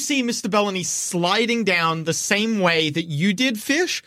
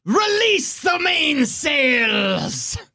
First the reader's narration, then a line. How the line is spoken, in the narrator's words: Captain Belbarum screams